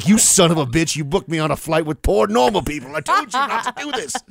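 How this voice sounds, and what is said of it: Pretty good put-on accent. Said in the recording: “That's a pretty good accent.”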